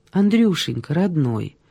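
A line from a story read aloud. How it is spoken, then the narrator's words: Very soft tone. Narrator (Russian): Мягчайшим тоном произнес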